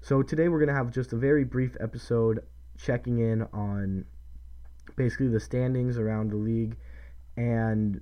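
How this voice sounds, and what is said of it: Sick, under-the-weather voice. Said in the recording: “if you can't tell by my voice, a little bit under the weather ... I've been trying to fight off this cold”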